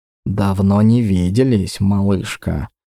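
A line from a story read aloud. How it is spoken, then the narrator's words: Barely audible whisper. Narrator (Russian): прошептал, а скорее даже произнес он одними губами, чтобы услышала только я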